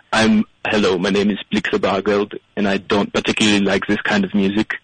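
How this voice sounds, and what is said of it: Weak put-on German accent. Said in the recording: “That's not a very good German accent”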